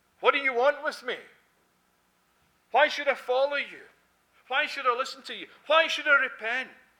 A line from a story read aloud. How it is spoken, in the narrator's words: shouting at the top of your voice